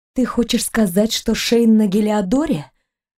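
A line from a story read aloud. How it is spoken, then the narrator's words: Muffled question. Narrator (Russian): глухо спросила она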